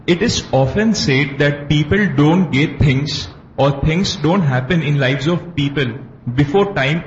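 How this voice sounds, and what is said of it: Accent that is hard to understand. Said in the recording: “Your accent is difficult for me to understand ... Say it slowly”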